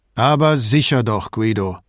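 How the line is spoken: Curt, gruff. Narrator (German): sagte Vianello so schroff, dass man meinen konnte, er habe noch keinen Kaffee getrunken

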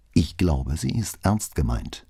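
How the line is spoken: Plain. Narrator (German): sagte

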